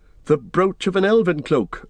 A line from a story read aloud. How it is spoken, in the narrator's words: cried Legolas and Gimli together